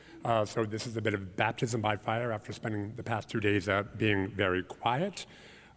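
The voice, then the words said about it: Hoarse, strained voice. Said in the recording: “I am getting over a terrible case of laryngitis.”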